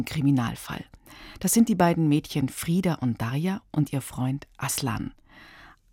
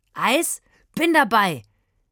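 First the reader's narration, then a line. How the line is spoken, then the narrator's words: Calling out. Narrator (German): rief Aslan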